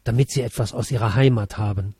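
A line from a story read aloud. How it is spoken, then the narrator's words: Quiet. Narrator (German): sagte sie leise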